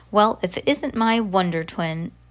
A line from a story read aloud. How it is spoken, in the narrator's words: Miss Foster exclaimed